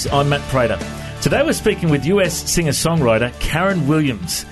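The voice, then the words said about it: Australian accent. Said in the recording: “you can hear my Aussie accent”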